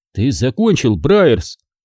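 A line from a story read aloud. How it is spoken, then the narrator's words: Angry smirk. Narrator (Russian): Он сердито усмехнулся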